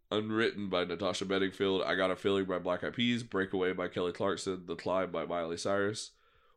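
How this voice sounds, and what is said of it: Congested, sick-sounding voice. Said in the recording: “I know I sound awful. I've been sick, and I know I sound congested.”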